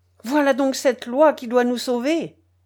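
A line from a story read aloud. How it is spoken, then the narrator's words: Exclaimed. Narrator (French): s'écria-t-il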